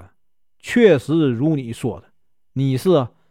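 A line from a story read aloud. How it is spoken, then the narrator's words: Resigned sigh. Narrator (Chinese): 莲香无可奈何的叹息说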